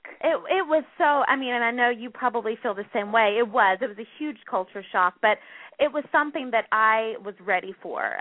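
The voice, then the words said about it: Southern American accent. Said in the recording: “originally from the South. I'm from North Carolina, so a Southern girl at heart. I'm pretty sure you could hear my accent.”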